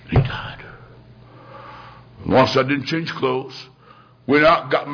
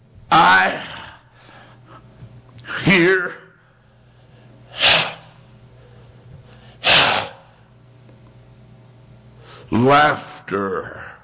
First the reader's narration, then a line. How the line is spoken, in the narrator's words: In a trembling voice, he said